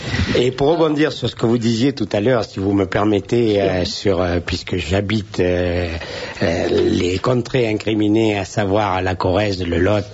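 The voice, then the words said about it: Regional French accent. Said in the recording (French): “vous avez l'accent dont on rêve ... c'est un accent merveilleux ... c'était l'accent d'Henri IV”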